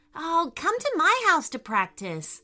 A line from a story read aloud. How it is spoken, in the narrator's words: Lucy said excitedly